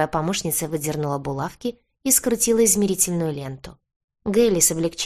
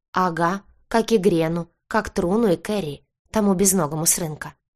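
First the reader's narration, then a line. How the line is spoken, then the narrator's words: Muffled listing. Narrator (Russian): глухо перечисляла швея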